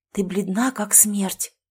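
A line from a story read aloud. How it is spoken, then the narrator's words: Whisper. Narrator (Russian): прошептала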